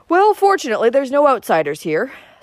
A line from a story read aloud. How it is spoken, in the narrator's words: snapped Uncle Benjamin